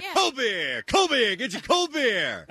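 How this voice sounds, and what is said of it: Loud stadium beer vendor call. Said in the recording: “What kind of accent is that? ... Is that a New Jersey? ... Baltimore? ... That's a vendor accent”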